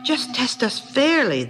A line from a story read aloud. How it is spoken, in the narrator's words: they exclaimed